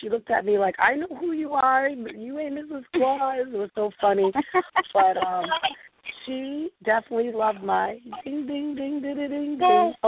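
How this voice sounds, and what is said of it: Hoarse, worn-out voice. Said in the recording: “that's another reason why I lost my voice. I was karaoke-ing it all over New Hampshire ... my voice is so bad”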